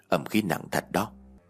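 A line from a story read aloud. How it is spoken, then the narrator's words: Old man muttering while walking. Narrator (Vietnamese): Ông vừa đi vừa lẩm bẩm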